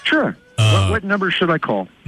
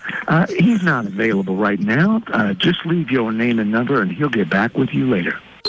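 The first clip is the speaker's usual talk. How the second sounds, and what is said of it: Smooth voice. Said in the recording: “do it in that smooth voice”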